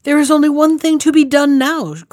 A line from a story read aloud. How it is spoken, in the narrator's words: cried